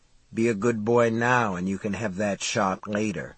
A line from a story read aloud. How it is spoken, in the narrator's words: He murmured